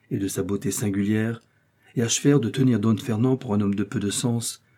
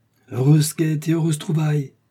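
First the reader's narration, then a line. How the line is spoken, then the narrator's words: Ecstatic exclamation. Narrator (French): s'écria Sancho transporté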